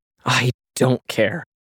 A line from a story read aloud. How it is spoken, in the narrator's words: Sashio muttered